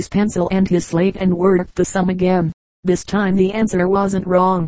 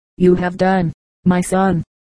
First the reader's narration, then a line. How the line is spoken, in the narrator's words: replied the father